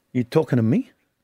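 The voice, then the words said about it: Robert De Niro Taxi Driver impression. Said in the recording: “Now he's got an accent. ... He's just on De Niro. Robert De Niro in Taxi. ... It wasn't bad. ... See, I can do impersonations too. ... That was terrible.”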